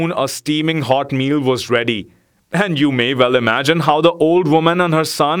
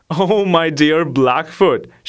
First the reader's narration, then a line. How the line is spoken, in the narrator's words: she began laughingly